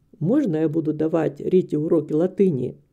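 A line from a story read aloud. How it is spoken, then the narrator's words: Quiet question. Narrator (Russian): тихо спросил мистер Дигби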